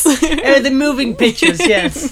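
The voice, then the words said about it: Put-on accent. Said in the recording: “I don't know where that accent comes from, but maybe I'm going to do it for the rest of the podcast.”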